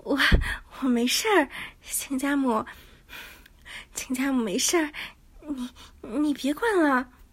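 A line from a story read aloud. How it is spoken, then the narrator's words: Breathless panting. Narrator (Chinese): 亲家母喘息道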